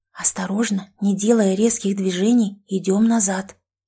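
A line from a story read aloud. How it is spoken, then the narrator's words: Whispered. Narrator (Russian): прошептала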